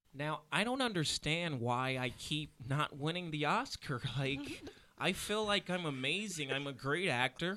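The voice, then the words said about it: Imitates another person's voice. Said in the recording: “my Leonardo DiCaprio impression is untouchable ... I gotta make sure I hear myself so I get the right pitch.”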